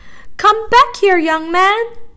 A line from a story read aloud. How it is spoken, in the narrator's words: woman shouted